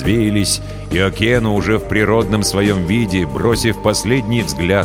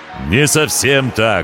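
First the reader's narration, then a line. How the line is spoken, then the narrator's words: Ringing voice. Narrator (Russian): ответил пришелец звонким голосом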